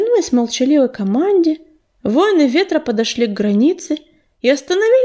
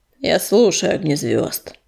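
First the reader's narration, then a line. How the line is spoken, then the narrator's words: Growling. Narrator (Russian): прорычал звездный луч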